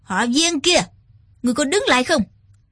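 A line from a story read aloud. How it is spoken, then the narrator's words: Shouted. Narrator (Vietnamese): Trác Thiên Hùng quát lên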